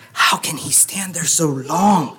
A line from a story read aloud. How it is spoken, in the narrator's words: Nalimo gasped